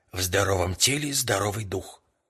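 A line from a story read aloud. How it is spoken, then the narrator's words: Muffled deep bass. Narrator (Russian): сказал я глухим басом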